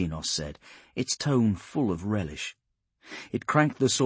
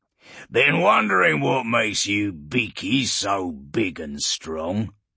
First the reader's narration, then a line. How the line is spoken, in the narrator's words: Urgul growled at Polixis